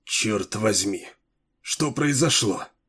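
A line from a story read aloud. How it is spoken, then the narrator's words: Muttered. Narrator (Russian): пробормотал Уит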